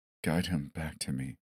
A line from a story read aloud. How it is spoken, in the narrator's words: whispered